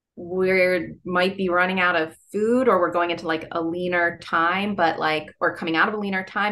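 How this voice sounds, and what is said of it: Nasal Philadelphia East Coast accent. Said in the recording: “my Philadelphia accent ... my nasal East Coast thing”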